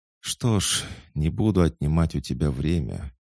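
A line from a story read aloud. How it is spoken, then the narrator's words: Heavy sigh. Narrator (Russian): тяжело вздохнул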